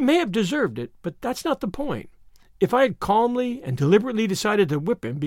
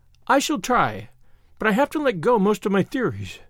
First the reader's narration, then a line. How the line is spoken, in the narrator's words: said Anne, laughing a little